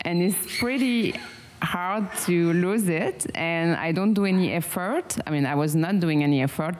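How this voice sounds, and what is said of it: Strong French accent. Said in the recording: “I have a strong French accent”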